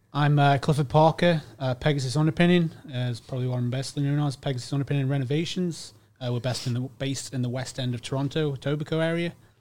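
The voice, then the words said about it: Speaks with a noticeable accent. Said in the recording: “I love his accent.”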